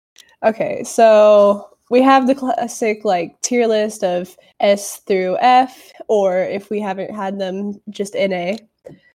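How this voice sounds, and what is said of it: Congested, lower-pitched sick voice. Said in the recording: “the way my voice sounds today. I'm still with the allergies, down with the sickness... I sound like a guy”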